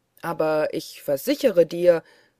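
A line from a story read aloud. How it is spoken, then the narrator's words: Annoyed call. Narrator (German): rief Michel unmutig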